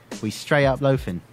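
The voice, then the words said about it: Put-on UK accent. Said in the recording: “Use a UK accent.”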